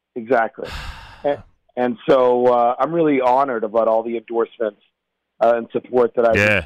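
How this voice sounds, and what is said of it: Hoarse, strained voice. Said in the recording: “I'm losing my voice. You can probably hear it. I've been out campaigning.”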